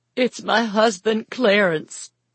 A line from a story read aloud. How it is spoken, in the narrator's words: replied, trying to stifle the sobs enough to answer